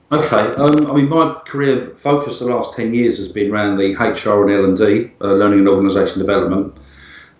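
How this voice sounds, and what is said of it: Essex English accent. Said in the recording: “I can tell by your accent, you're an Essex lad”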